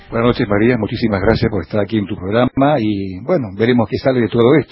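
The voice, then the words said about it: Rich announcer-like broadcast voice. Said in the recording (Spanish): “tiene voz de locutor... Preciosa voz.”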